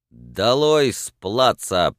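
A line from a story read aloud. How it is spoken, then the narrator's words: Loud command. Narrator (Russian): приказал громко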